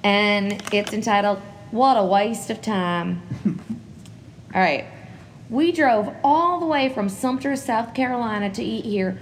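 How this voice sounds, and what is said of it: Put-on Southern American accent. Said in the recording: “I should have read all of these with a southern accent. I'm going to start now.”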